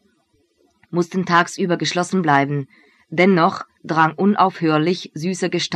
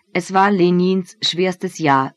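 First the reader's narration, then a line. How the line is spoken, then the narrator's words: Plain. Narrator (German): sagte Münzenberg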